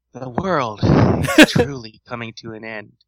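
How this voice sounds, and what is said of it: Sexy, husky reading voice. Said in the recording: “My best sexy voice... Little huskier.”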